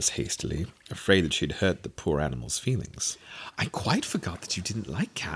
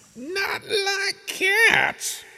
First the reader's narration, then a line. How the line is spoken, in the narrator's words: cried the mouse in a shrill, passionate voice